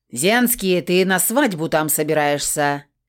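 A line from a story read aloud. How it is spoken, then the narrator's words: Barked. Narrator (Russian): гаркнул Крор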